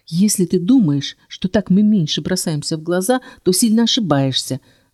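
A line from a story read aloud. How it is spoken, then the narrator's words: Hissing. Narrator (Russian): зашипела я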